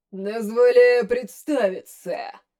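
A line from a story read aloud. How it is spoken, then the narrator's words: Booming giant voice. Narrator (Russian): Прогремел на весь тронный зал исполин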